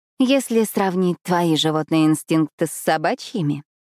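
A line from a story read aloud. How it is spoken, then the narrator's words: Purring. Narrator (Russian): промурлыкала я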